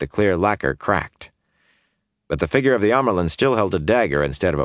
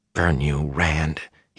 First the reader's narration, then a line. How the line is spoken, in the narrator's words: he muttered under his breath